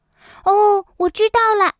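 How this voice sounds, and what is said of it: Loud exclaiming character line. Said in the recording (Chinese): “小松鼠大声说道”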